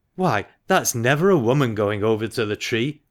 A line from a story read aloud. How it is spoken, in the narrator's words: cried